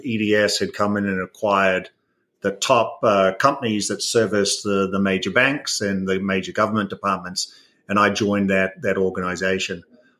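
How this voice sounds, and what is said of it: New Zealand accent. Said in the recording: “everyone might hear an accent. So I'm originally from New Zealand”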